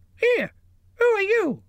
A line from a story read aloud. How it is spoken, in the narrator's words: It squeaked